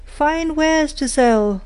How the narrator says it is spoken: cried

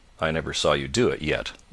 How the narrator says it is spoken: muttered Carton

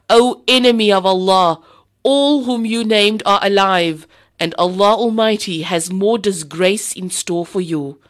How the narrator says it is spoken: Umar radiallahu anhu impetuously roared

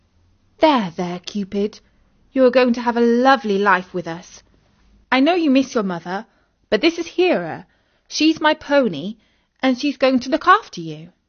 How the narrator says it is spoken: Isis rubbed his neck and said soothingly

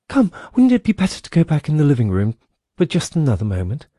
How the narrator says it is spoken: said, although in a trembling voice and too quickly

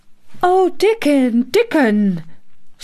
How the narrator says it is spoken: she cried out

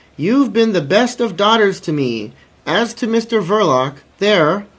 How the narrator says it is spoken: screamed the old woman, earnestly above the noise

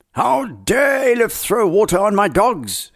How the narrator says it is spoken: thundered

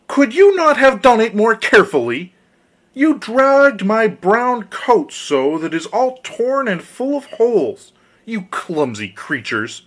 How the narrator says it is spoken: the dwarf had recovered from his first fright, he cried with a shrill voice

